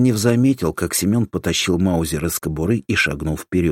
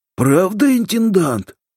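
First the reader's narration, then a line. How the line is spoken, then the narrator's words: Old man's joyful question. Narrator (Russian): радостно спросил старик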